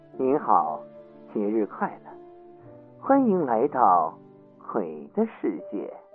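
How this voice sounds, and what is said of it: Cold, eerie female voice. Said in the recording (Chinese): “她仍然用一种冰冷的声音说”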